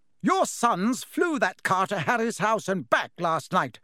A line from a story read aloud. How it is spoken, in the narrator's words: shouted Mrs